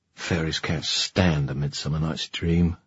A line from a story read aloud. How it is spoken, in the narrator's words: muttered